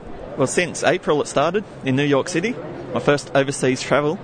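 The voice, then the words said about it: Australian accent. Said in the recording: “that accent is Australian... It's Australian.”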